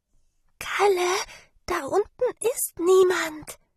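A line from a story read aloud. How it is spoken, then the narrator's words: Whispered. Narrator (German): flüsterte Sarah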